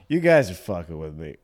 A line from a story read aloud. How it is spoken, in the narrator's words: he kind of laughed and said